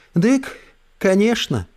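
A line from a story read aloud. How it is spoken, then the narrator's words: Sigh, secret language. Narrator (Russian): вздохнула Эльса на тайном языке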